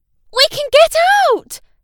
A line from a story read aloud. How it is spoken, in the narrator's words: Tom cried